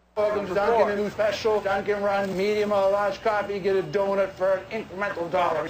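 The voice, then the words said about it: Massachusetts accent. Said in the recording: “he's from that area. He's got that accent.”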